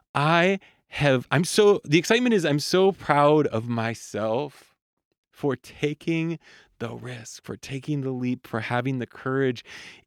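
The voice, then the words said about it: Excited voice. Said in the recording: “hear the excitement in my voice?”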